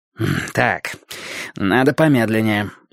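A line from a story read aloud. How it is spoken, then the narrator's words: Gloomy. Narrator (Russian): мрачно сказал Борис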